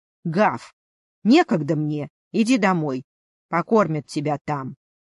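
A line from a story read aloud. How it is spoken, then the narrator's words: Grumble. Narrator (Russian): буркнула добрая хозяйка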